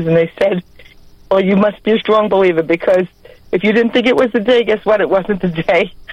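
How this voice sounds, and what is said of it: New York accent. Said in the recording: “I love your New York accent. ... that's just a great accent.”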